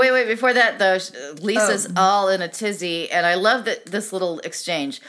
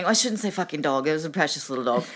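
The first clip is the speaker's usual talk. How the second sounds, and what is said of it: Spot-on imitated accent of Lisa. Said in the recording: “your accent was so good. ... Was it spot on? It spot on? ... It's spot on.”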